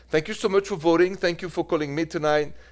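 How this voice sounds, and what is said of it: French accent. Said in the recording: “with this French accent.”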